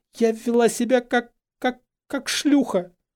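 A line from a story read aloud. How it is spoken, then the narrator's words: Strained, forced out. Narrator (Russian): Выдавила Гермиона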